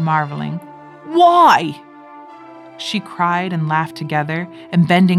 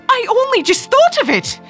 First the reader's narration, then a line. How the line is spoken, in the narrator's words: she said hysterically